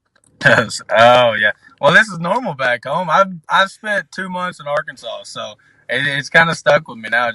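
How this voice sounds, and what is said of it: Southern American twang. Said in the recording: “twang ... the southern accent that we're riding with”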